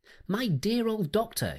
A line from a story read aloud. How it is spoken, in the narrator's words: she cried